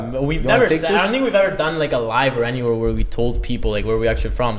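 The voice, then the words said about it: Italian accent. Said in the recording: “these guys got a real Italian accent”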